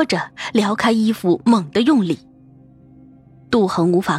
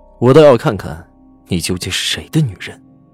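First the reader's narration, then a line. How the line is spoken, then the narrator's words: Cold, fierce. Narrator (Chinese): 赵世南发了狠，冷声说着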